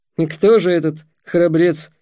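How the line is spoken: Skeptical snort. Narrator (Russian): скептически хмыкнул Ростислав

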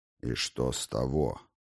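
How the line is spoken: Icy cold voice. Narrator (Russian): Голос Ксанико прозвучал холодно, точно ветер на вершине высокой горы

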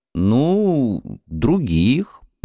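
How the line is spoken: Mumbling. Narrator (Russian): промямлил я

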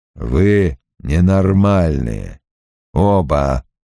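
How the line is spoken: Grumbling. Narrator (Russian): буркнул Перрит

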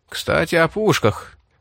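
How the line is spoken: Tense voice. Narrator (Russian): напряженным голосом произнес Рип

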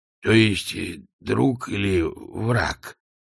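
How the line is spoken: Mumbled. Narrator (Russian): промямлил он

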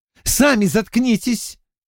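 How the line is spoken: Snapping retort. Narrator (Russian): огрызнулась Бланш

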